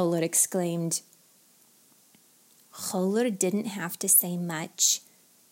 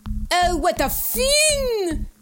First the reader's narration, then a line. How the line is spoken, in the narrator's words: Khawler screamed